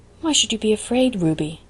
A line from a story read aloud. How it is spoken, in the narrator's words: asked Anne quietly